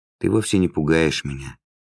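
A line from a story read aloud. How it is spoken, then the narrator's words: Soft gentle voice. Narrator (Russian): добавил он мягко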